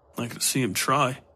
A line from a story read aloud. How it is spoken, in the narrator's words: he mumbled